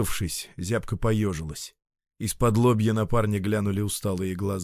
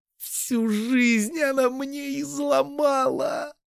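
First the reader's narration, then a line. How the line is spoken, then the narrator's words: Sobbing speech. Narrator (Russian): Всхлипывая, начала Катя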